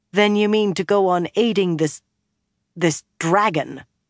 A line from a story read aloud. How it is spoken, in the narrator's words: Lyanna snapped